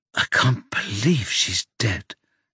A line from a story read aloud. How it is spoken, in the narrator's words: she whispers